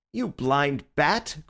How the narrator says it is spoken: cried Bull

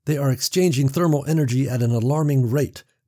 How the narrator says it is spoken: Paul snapped

